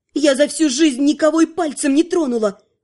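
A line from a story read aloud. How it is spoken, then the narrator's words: Angry exhaled words. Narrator (Russian): зло выдохнула Наташа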